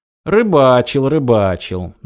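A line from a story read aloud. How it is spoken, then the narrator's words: Mocking reply. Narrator (Russian): насмешливо ответил Радим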